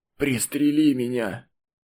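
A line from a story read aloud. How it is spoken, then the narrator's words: Wounded man wheezing. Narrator (Russian): Раненый хрипел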